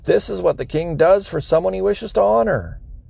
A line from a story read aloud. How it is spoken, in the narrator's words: shouting